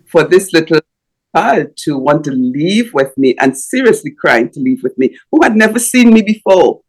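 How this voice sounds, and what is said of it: Strong foreign accent. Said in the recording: “with a strong accent so you can figure out what I'm saying”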